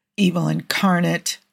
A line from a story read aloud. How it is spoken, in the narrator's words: Joe muttered